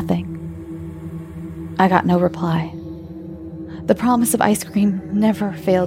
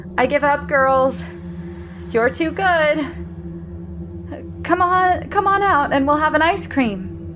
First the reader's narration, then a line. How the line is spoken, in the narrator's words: raised my hands to my mouth and shouted